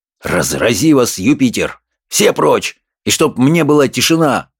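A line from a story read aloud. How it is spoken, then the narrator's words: Angry growl. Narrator (Russian): зарычал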